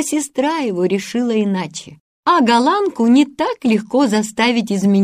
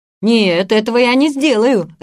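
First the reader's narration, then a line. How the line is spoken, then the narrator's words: Laughing. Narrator (Russian): рассмеялся Питер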